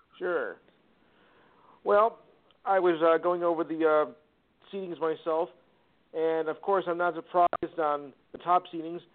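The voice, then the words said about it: New Jersey accent. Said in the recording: “I'm from New Jersey, actually, so excuse the accent.”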